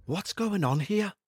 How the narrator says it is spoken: Michael whispered

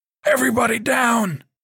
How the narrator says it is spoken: Cortez screamed

